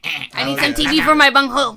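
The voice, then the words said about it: Cornholio impression from Beavis and Butthead. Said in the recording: “I am Cornholio... that's how he talks... your impression”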